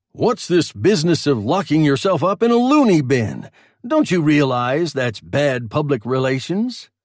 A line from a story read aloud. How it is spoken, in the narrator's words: He chuckled